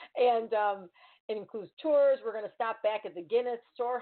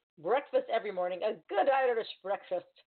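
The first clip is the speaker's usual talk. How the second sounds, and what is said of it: Attempted Irish brogue. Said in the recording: “my brogue, I'm trying”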